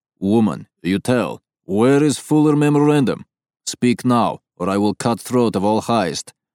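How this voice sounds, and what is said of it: Thick Eastern European accent. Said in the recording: “a voice speaks in a thick Eastern European accent”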